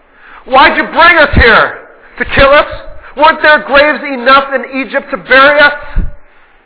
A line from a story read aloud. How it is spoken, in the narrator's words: they screamed at him